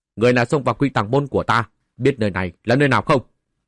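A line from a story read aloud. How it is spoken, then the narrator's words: Loud shout. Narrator (Vietnamese): vài vu sĩ thủ sơn cao giọng quát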